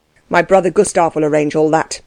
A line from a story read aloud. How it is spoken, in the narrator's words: he said stiffly